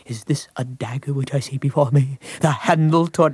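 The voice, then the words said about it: Elizabethan Shakespearean delivery imitating John Gielgud. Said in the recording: “I took out records from Sir John Gielgud and tried. ... And I did it just like the record did at the audition.”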